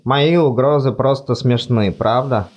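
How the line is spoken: Gloomy. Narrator (Russian): мрачно спросил он

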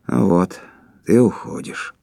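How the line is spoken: Sad. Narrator (Russian): Кондратьев грустно сказал

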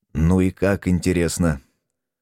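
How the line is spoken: Hungover mutter. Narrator (Russian): Все еще мучаясь похмельем, буркнул я

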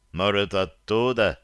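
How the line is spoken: Deep bass, burly man. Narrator (Russian): проговорил басом один из христиан, могучий мужик

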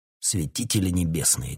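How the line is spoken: Breathless muttering. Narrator (Russian): тяжело дыша пробормотал король

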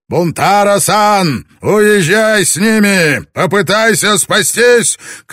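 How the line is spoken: Shout through cupped hands. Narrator (Russian): Таранага тут же сложил руки рупором и прокричал

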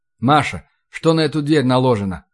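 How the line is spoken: Plain. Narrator (Russian): спросил я

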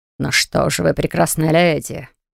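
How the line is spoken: Snort close to ear. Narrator (Russian): Хмыкнули над ухом

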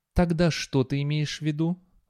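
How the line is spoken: Sighing. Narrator (Russian): вздохнула Артемизия

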